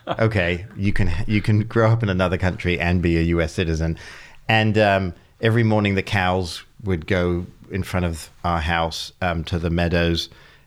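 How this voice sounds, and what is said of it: English accent. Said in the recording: “if you have an English accent”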